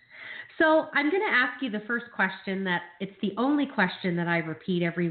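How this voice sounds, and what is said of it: Nasal, raspy voice from a cold. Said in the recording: “my nasally, raspy Pat Benatar voice. This cold going around has finally got me”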